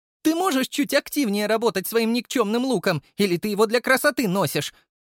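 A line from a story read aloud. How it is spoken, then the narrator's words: Shouting mid-fight. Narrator (Russian): кричала Ирина, отбиваясь от демонов бурь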